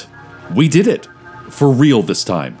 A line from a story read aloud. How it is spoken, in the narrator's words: said the sheriff